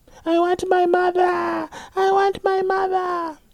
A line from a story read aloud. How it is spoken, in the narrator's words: a child screaming outside at night